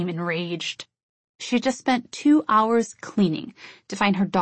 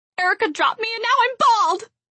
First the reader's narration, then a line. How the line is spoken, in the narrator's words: I screamed while the severity of the situation began to dawn on me